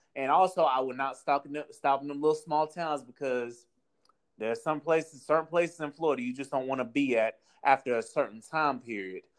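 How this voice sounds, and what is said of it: Southern US accent. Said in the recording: “Where does the accent come from? I've never heard a Florida person with that accent... you're giving me like Alabama, Tennessee... Southern accent”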